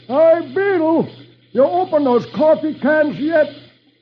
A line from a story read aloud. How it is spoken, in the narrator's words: the cook yells